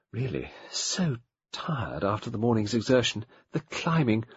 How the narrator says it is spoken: Miss Pierce murmured

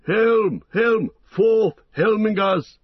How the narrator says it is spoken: He shouted

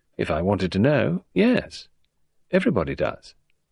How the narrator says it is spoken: Rosamond said calmly

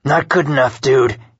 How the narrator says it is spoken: he sneered, unappeased

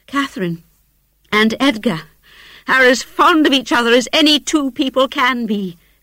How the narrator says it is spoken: cried Isabella with sudden vivacity

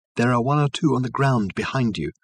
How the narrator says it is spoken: called Reg softly

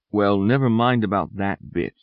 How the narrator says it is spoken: said Hazel in a steady voice

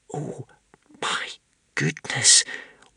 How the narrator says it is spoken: whispered Wish in horror

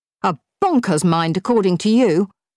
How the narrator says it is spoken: snapped Claire

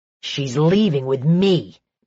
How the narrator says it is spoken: Micah growled

